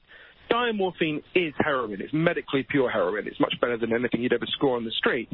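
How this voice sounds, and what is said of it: British accent. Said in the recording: “in Britain, where I'm from, as you can tell from my weird Downton Abbey accent”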